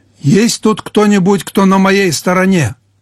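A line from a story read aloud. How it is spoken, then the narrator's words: Full-voiced shout. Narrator (Russian): крикнул он во весь голос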